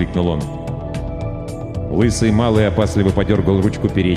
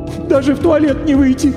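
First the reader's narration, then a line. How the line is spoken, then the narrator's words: Sorrowful sobbing woman. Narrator (Russian): горестно всхлипнула дама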